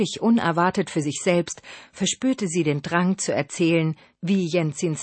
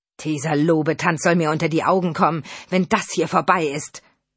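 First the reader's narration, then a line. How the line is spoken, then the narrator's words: Angry outburst. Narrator (German): stieß Markus zornig hervor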